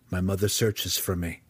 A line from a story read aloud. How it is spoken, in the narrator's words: Drizzt replied flatly